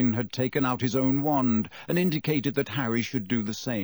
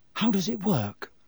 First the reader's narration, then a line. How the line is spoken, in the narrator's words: said Harry nervously